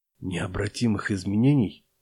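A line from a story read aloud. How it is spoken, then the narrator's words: Craftsman whispering. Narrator (Russian): прошептал умелец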